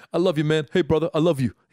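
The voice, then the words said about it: Imitates another person's voice. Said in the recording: “my impression of Anthony”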